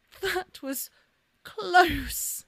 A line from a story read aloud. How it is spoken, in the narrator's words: she sputtered